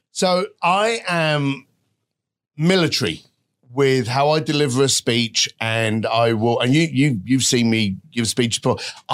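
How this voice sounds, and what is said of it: English accent. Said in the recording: “The English accent is an unfair advantage”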